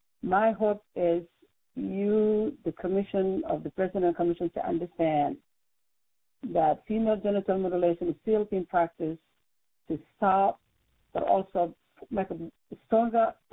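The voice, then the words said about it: Speaks with a noticeable accent. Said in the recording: “I have this funny accent”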